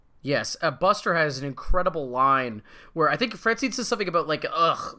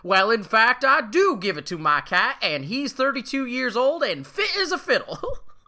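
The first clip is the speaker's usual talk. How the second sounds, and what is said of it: Old-timey salesman accent. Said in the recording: “in his old-timey snake oil accent, goes”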